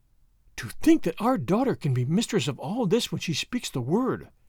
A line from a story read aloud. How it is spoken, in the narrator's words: she gasped